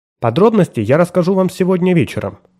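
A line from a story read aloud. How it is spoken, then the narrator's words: Plain. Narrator (Russian): ответила она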